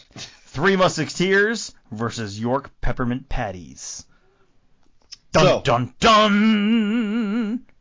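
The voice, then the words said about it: Announcer-style voice. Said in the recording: “I like your announcer voice.”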